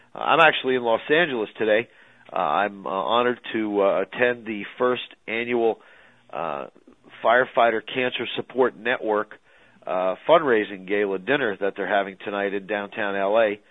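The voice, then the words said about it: Rough, slightly congested voice. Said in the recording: “If I sound a little rough, it's not the phone connection. I'm battling a little bit of a head cold here.”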